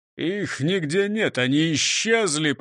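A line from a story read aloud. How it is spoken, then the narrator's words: Groaning. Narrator (Russian): простонал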